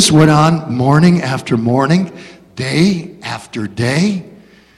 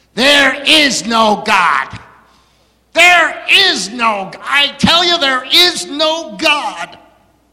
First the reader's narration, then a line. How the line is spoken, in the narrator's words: he'd shout back next door on his front porch